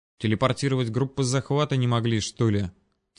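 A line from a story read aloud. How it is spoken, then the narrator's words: Quiet mutter. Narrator (Russian): Тихонько пробормотал я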